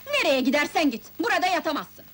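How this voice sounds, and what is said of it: Shouting angrily. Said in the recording (Turkish): “Bağırma lan! ... Bağırma be!”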